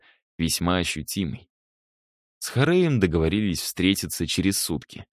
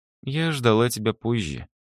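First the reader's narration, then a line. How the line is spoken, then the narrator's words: Girl's sad smile. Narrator (Russian): грустно улыбнулась девушка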